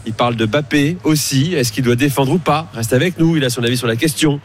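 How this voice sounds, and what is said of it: Put-on Canadian French accent. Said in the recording (French): “Pourquoi il fait l'accent ? ... c'était l'accent canadien.”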